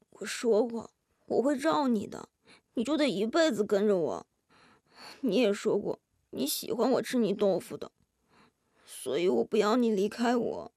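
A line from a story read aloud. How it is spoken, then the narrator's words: Blurred dreamy murmur. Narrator (Chinese): 金多多的声音模模糊糊，几乎像梦呓呢喃一般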